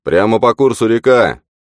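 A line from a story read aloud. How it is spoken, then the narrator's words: Ranger shouting. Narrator (Russian): Один из рейнджеров прокричал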